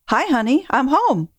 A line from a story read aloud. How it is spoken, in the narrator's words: said in a sunny voice